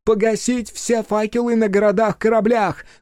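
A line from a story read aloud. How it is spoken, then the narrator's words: Shouted command. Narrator (Russian): крикнула Тан, обращаясь к сигнальщикам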